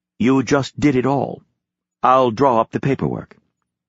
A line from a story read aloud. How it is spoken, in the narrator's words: A cultured voice answered smoothly